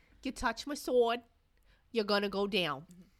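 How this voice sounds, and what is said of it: Put-on East Coast American accent. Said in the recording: “I'm just gonna give everybody an East Coast accent.”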